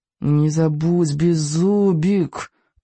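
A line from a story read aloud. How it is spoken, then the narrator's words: Through gritted teeth. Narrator (Russian): процедил Икинг сквозь зубы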